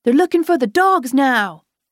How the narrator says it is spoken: exclaimed Feather

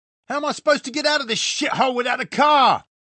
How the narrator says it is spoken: Simon was shouting now

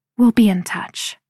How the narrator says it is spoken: she whispers to Caleb

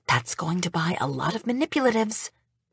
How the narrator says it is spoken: Debbie whispers

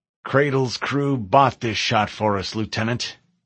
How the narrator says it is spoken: Captain Keyes growled

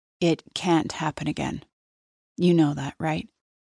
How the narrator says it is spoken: he heaves a sigh

